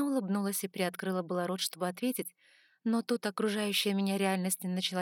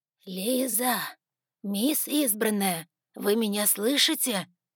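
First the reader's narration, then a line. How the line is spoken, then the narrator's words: Hoarse strained wheeze. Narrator (Russian): с трудом просипела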